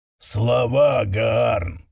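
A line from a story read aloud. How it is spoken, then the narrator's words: Growled reply. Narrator (Russian): прорычал в ответ старший из Пепельных Волн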